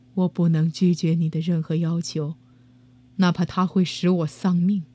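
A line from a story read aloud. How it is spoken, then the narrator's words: Beast, lament ceased. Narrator (Chinese): 野兽 停止了悲叹，说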